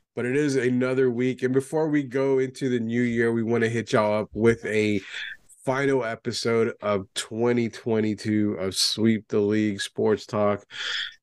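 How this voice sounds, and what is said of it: Deep voice from being sick. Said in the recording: “getting a little under the weather ... tell by my voice, I sound like the deep note guy from Boyz II Men, you know, the background guy”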